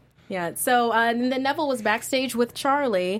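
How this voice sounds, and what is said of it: Usual voice. Nothing is said of it.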